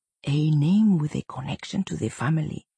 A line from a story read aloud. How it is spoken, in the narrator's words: he whispered to Nyssa